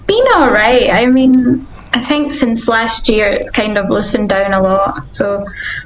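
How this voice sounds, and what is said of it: Spanish accent in English. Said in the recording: “I can tell from your accent that you are definitely in Spain.”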